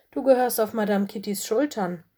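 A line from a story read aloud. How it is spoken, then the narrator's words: Plain. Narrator (German): sagte sie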